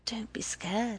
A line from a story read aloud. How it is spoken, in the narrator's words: she whispered